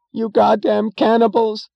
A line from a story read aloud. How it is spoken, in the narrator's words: screamed a woman, breaking into sudden hysterical sobs